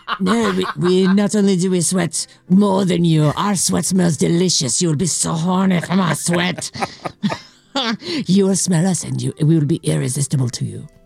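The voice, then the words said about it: Vague put-on French accent. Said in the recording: “I don't know what a French accent sounds like. I'm just making very random ... sounds ... Sounds that are vaguely French sounding.”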